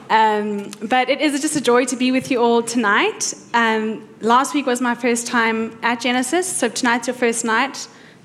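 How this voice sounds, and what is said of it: South African accent. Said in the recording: “I hope the accent is not too much ... We say, yeah, in South Africa.”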